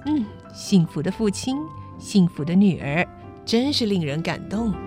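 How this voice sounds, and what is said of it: Speaking softly, quietly. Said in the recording (Chinese): “小声地说”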